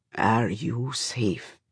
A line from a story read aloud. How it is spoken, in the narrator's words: He asks then, quietly